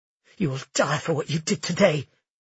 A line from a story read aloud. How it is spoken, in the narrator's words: she spat